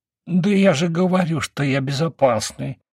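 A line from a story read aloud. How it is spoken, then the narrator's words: Frightened babbling. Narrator (Russian): испуганно залепетал мужичок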